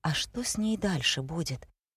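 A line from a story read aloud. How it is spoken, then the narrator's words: Very quiet, cautious question. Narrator (Russian): Тихо-тихо, будто опасаясь, что Ника услышит, он спросил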